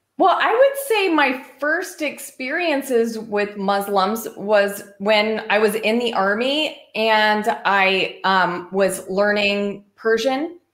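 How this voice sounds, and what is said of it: American accent. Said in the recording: “So your accent, you're clearly American.”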